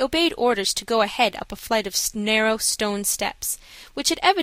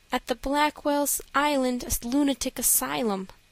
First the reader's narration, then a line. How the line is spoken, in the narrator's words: she answered sadly